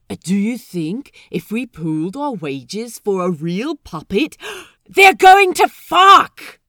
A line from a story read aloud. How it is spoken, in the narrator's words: Pete hollers above the storytime excitement